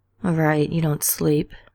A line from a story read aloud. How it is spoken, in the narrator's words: Dean mumbled, burrowing deeper under the fancy covers